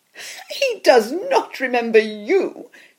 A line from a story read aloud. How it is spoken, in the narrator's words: she laughed